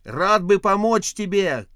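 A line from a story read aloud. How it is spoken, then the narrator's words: Shout. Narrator (Russian): крикнул Спилин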